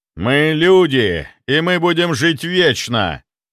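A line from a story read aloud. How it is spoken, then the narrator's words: Puppets exclaiming in chorus. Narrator (Russian): хором воскликнули марионетки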